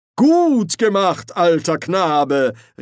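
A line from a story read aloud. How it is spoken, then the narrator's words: Calling out. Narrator (German): rief Ridkali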